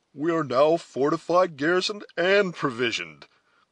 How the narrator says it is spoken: cried Hayward cheerfully

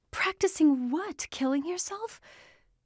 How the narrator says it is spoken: Her voice sounded hysterical

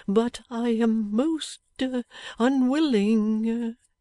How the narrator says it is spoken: said Twemlow, faltering

